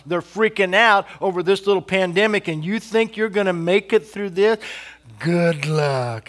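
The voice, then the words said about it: Sarcastic tone. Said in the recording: “I know I'm being sarcastic.”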